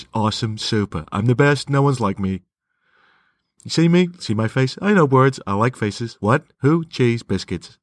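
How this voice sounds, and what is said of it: Imitates another person's voice, badly. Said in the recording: “I do so many impersonations of him, admittedly bad ones ... I had to speak like this”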